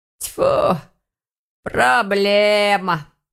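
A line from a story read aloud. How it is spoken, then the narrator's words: Grumbling. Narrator (Russian): проворчала ворки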